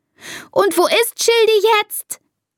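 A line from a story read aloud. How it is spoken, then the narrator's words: Screaming, stamping foot. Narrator (German): schreit und stampft mit dem Fuß auf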